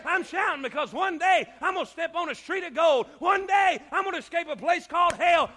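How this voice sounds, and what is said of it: Strained, hoarse shouting voice. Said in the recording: “I'm losing my voice”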